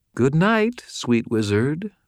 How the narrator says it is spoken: Madeline purred

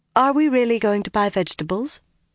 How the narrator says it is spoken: Her face was composed, her tone light

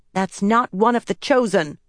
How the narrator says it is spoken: Eldrith yelled back

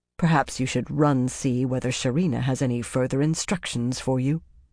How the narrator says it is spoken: Romanda said coldly

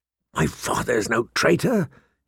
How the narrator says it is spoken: he said hoarsely

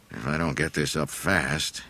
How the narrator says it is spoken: he grumbled to himself

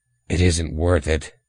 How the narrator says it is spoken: he grunted

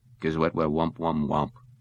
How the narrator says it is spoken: the phone mumbled

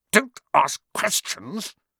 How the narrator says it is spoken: snapped his uncle

